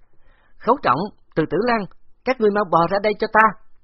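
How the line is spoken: Charming, sharp shout. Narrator (Vietnamese): Phó Quân Tường yêu kiều quát

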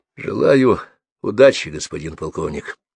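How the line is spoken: Flat colorless voice. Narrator (Russian): сказал бесцветным голосом, стоявший с непроницаемым лицом Леший

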